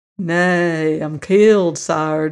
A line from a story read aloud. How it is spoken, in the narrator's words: drawled the Virginian amiably